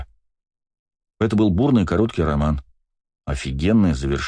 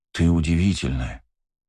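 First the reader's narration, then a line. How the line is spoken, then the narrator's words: Soft voice. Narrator (Russian): мягким голосом сказал я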